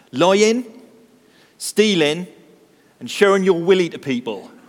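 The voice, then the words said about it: Broad West Country accent. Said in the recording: “replied confidently in a broad West Country accent”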